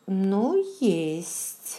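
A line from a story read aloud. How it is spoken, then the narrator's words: Slow, thoughtful speech. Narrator (Russian): медленно проговорила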